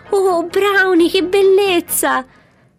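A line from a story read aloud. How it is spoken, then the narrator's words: Ecstatic joyful shout. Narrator (Italian): Pazza di gioia nell'eccitazione del momento gridò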